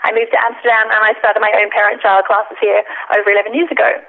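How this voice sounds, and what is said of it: Australian accent. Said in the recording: “I'm originally from Australia. ... I love the accent.”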